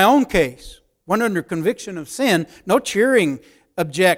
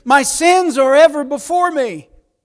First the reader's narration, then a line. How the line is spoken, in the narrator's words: cries with David